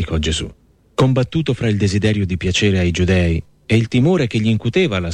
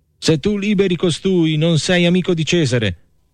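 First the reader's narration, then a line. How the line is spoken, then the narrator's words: Crowd shouting. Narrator (Italian): gridava il popolo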